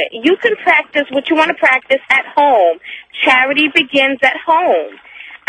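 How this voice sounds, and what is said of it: New York accent. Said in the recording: “you have a delightful accent... I'm a New Yorker”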